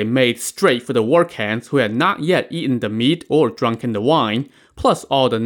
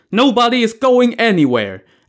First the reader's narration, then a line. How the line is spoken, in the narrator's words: Zhu Gui and Zhu Fu now each grabbed the broadsword from the helpless militiamen and shouted